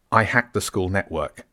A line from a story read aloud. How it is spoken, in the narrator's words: Nick said